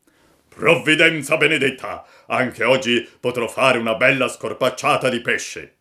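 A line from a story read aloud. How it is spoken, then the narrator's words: Happy shout. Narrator (Italian): il pescatore ... gridò tutto contento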